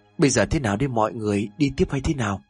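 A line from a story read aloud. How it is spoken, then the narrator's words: Trembling question. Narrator (Vietnamese): thằng Bình hỏi trong cái giọng run rẩy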